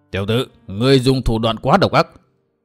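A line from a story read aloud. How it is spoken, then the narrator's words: Icy cold voice. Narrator (Vietnamese): có giọng nói lạnh lùng như băng tuyết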